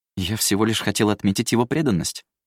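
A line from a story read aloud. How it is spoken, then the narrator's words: Plain. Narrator (Russian): сказал вор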